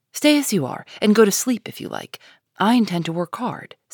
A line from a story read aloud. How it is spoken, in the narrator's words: said Amy, in her most energetic tone